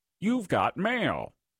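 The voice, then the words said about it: Impression of AOL mail announcement. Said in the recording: “That wasn't a good impression.”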